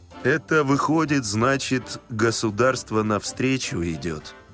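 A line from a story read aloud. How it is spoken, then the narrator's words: Gloomy. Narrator (Russian): сказал он мрачно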